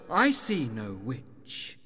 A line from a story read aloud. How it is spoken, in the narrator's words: the jester said quietly